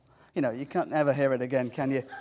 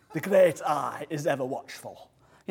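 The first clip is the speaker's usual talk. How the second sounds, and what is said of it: Put-on Yorkshire accent. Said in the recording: “Moses spoke with a Yorkshire accent, like the actor Sean Bean ... it was a Yorkshire accent ... mocking the accent”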